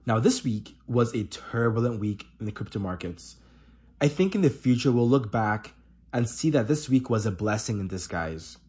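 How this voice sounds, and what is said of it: Congested, allergy-affected voice. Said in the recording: “my allergies have been in overdrive. You can probably hear it in my voice.”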